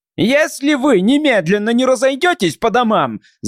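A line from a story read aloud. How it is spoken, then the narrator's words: Yelled. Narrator (Russian): завопил он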